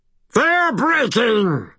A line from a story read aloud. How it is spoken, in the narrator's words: Toot bellowed